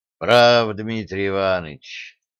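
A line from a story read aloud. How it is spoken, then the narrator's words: Sighing continuation. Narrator (Russian): вздохнув, продолжал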